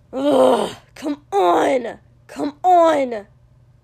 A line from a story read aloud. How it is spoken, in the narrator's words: Kotsky growled furiously and said